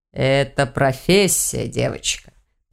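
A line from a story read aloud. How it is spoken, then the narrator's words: Knowing man's snort. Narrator (Russian): понимающе хмыкнул мужчина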